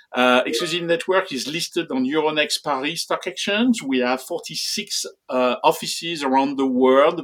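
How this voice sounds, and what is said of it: Deep French accent. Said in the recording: “You can detect this beautiful deep French accent”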